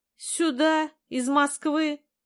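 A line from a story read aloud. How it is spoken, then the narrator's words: Loud laughter. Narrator (Russian): Костя расхохотался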